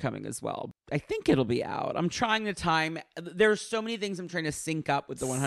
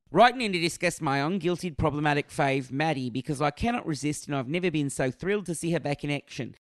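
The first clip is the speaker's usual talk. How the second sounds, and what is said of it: Put-on general Australian accent. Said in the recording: “I can't possibly do Kyatton's accent, actually. It's so beautiful, but I'm going to just do an Australian general accent.”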